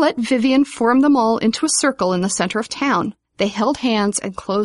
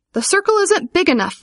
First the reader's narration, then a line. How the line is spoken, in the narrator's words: Vivian cried